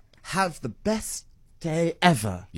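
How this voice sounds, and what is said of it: Strong Milton Keynes English accent. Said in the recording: “in your best Milton Keynes ... That accent is strong, guys. That accent is so strong.”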